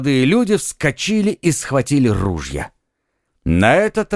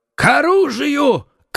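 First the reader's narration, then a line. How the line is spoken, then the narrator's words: Shouted. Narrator (Russian): крикнул Гримо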